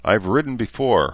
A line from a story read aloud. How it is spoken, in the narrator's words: Herzer replied